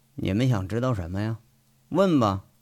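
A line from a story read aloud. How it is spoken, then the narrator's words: Cold. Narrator (Chinese): 卜离冷冷的看着两名预审员，说了一句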